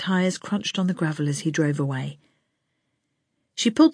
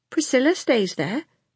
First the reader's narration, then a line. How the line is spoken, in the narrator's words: Peter said sulkily